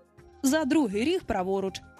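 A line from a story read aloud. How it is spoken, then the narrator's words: Plain. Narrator (Ukrainian): відповів Пітер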